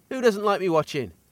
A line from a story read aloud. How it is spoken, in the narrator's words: I chuckle